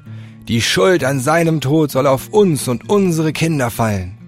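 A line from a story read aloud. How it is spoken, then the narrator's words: Crowd shouting. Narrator (German): Da schrie das ganze Volk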